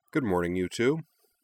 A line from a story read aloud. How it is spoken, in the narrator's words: she said cheerfully